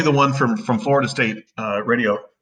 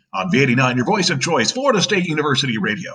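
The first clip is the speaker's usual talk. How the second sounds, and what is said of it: Radio announcer voiceover voice. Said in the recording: “a real radio voice ... one more quick voiceover from your days in radio”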